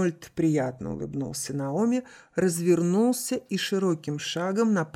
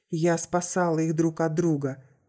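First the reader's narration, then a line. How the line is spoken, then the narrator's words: Unexpectedly calm. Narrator (Russian): неожиданно спокойно ответила Анна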